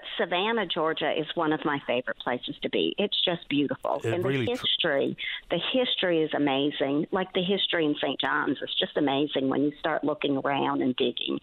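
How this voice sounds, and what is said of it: Homegrown accent with subtle southern drawl. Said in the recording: “Lovely blend, albeit subtle, of her homegrown accent and a little bit of the southern drawl mixed in.”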